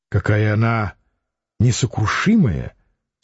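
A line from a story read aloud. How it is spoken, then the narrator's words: Quiet. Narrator (Russian): тихо сказала Лидия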